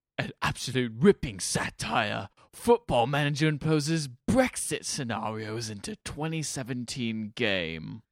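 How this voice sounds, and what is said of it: Put-on English accent. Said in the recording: “Do your English accent.”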